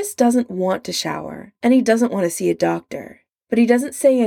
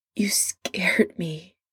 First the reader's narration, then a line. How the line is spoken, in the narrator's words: Adam says, his voice breaking on the words